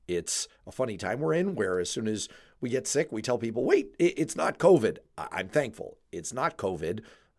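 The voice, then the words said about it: Hoarse voice recovering from laryngitis. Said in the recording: “you can probably hear I'm getting over a case of laryngitis ... it's still in my voice”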